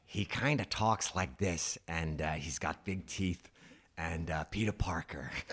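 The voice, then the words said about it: Imitates another person's voice. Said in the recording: “I'll do an impression of him ... Was that a good impression? ... That part of the impression”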